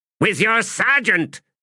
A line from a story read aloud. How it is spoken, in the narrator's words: snapped Ordinary Grey